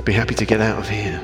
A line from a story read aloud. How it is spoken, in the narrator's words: mumbled Winton